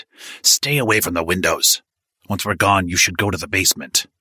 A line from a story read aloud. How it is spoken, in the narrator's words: Sal hissed